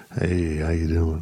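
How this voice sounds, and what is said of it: Put-on sexy, creepy voice. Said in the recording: “sexy voice ... Should I use a sexy voice for her? ... That's just creepy voice.”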